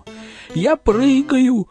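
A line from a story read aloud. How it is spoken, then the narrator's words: Nervous male shout. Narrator (Russian): нервно прокричал мужской голос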